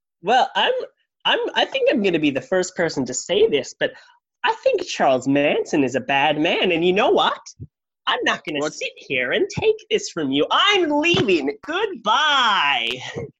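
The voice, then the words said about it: Imitates another person's voice, American accent. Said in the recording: “Bradley Cooper character there really changed into his Chris Hansen impression ... has limited range. and has one American accent.”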